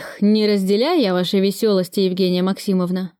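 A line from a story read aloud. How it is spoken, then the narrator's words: Grumbling. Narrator (Russian): проворчал Кравцов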